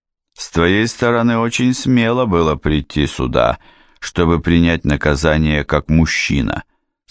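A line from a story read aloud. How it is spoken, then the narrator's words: Plain. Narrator (Russian): сказал Радо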